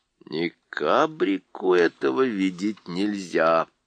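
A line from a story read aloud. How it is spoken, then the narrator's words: Muttering to himself. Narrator (Russian): он пробормотал про себя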